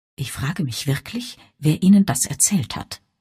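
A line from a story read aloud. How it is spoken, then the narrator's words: Quiet reply. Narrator (German): erwiderte er leise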